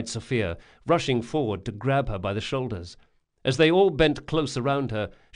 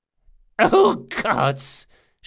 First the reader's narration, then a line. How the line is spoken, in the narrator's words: gasped